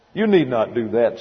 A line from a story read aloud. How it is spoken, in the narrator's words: said the lawyer